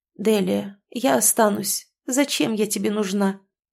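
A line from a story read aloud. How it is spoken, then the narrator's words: Sad sighing woman. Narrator (Russian): Печально вздохнув, промолвила женщина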